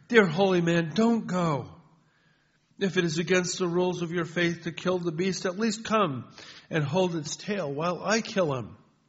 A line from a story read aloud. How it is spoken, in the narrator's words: the farmer sobbed in despair